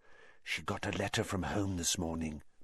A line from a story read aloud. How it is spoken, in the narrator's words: Parvati whispered